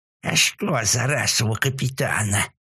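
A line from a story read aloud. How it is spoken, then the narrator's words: Hissing beetle. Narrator (Russian): прошипел жук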